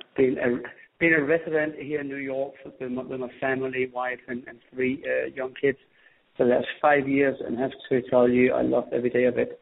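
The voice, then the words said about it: Slight Danish accent. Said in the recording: “as you probably hear, I still have a slight accent from Copenhagen, Denmark”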